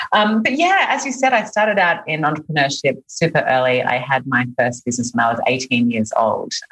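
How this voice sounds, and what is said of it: Australian accent. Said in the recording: “you can probably hear from my accent that I'm not from here originally. I'm Australian.”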